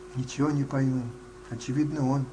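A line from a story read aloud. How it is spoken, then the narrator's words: Plain. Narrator (Russian): ответил я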